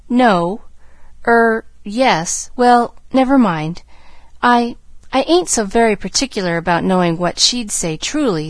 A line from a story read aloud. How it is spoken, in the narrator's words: stammered Nancy